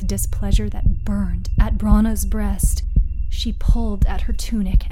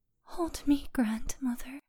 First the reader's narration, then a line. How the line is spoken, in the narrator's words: she whispered